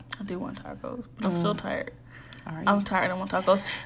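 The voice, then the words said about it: Low, tired-sounding voice. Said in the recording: “why are you talking so low? ... Because I'm tired.”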